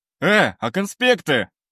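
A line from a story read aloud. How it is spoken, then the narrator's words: Shout after someone. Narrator (Russian): крикнул он мне вслед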